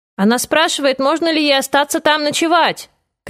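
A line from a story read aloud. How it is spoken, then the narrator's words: Shout. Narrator (Russian): крикнул Алексис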